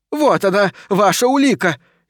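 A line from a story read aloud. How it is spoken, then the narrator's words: Shouted again. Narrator (Russian): еще раз прокричала женщина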